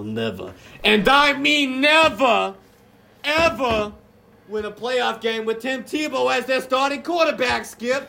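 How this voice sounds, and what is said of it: Put-on Boston/New York accent. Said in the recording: “Almost sound like you're going for a Boston accent there ... he kind of got the New York Boston accent ... the Brooklyn accent”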